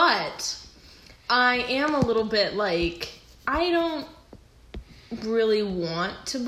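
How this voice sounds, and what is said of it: Usual voice. Nothing is said of it.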